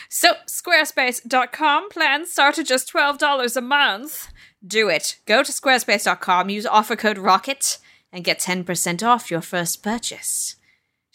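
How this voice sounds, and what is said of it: Terrible fake accent. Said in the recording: “Don't listen to my terrible fake accent ... That accent is truly terrible.”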